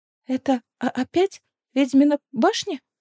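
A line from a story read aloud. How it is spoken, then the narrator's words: Trembling voice. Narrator (Russian): дрожащим голосом спросила Венга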